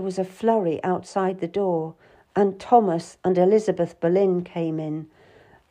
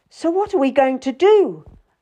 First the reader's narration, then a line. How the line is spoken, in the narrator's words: Elizabeth, the Countess, cried out